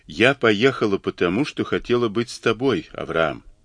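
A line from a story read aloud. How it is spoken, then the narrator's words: Gentle objection. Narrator (Russian): возразила мягко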